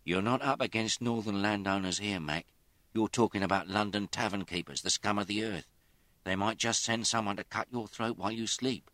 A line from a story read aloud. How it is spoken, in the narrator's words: Cora said anxiously